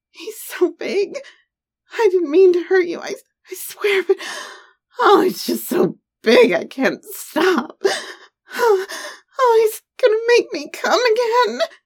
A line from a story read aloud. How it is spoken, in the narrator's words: his wife moaned, in pure ecstasy